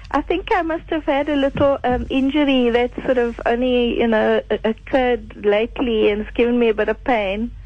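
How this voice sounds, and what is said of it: Croaky voice. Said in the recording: “my voice is a bit croaky”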